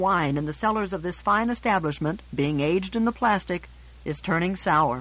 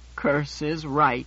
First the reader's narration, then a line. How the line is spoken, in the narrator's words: Menander said gloomily